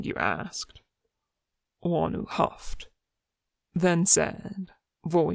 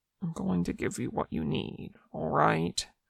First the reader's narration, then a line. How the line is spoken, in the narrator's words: Wanu mumbled something that Mingyu didn't quite catch